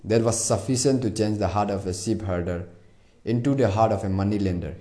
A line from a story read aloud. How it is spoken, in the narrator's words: he replied